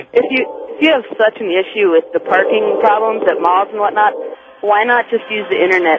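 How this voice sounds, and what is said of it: Regional American accent, Minnesota-like. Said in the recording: “I think she's from Minnesota or something. It's a regional, it's a regional American accent.”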